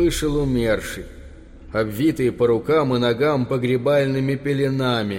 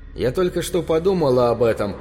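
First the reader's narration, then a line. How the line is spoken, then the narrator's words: Agitated. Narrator (Russian): сказала она взволнованно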